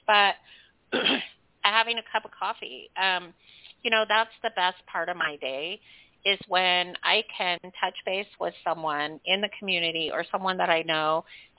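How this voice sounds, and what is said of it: Slightly off, sick-sounding voice. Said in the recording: “my voice is kind of a little bit off. I've been sick for the last couple of weeks”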